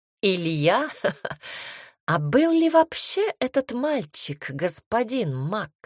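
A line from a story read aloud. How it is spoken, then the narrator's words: Child's ringing laughing speech. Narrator (Russian): Мальчик звонко рассмеявшись, проговорил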